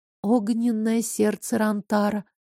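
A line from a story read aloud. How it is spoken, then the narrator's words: Whisper. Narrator (Russian): прошептала я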